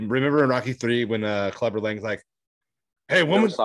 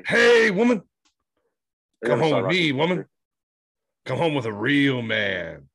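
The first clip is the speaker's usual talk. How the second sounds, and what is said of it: Imitates a movie character's voice. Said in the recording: “That's from Rocky III, Clubber Lang. That's my impersonation I'm working on lately.”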